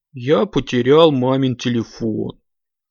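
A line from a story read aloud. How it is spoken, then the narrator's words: Sad reply. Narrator (Russian): грустно ответил тот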